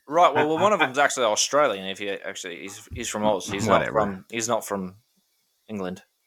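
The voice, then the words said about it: Bad put-on Australian accent. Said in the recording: “That was a terrible accent”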